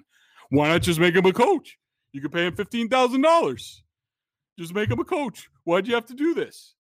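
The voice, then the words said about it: Imitates another person's voice. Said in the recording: “your Felger impression. ... Fantastic.”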